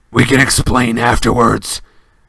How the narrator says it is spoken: snarled Black

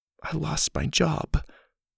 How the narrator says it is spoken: she whispered

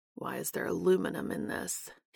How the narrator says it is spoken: He mutters

